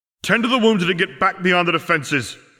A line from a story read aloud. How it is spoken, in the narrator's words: Harry barked with his wand placed next to his throat